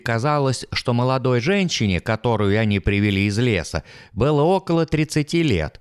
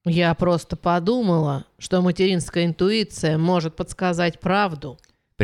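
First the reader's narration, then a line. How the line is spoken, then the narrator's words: Conciliatory explaining tone. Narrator (Russian): примирительным тоном объяснила Эви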